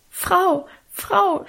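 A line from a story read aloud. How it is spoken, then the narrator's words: Stammering. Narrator (German): stammelte sie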